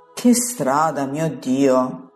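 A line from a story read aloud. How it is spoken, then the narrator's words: Groaning. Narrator (Italian): geme Pietro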